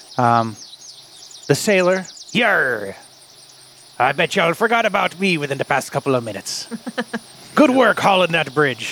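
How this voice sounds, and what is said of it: Put-on pirate accent. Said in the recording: “talking like a pirate ... why do you talk like a pirate?”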